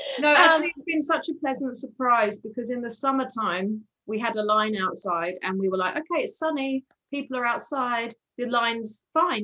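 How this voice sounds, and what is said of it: British accent. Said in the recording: “you can tell by your accents that you weren't born in Whistler ... we brought the British to British Columbia”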